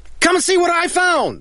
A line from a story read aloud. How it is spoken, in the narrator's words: People will shout and say